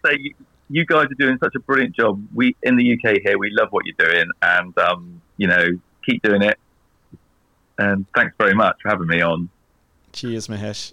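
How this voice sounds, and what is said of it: Englishman putting on Australian accent. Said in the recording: “I love hearing uh, an Englishman do an Australian accent”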